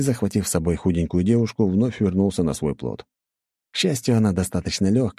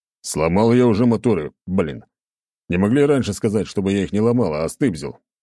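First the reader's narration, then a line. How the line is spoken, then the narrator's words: Grumbling. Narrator (Russian): заворчал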